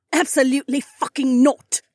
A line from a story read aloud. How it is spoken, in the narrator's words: Cat spat